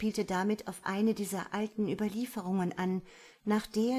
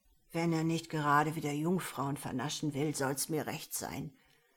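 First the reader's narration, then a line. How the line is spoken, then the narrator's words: Old man grumbling, pipe in mouth. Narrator (German): brummte der alte Janek, ohne seine erloschene Pfeife aus dem Mund zu nehmen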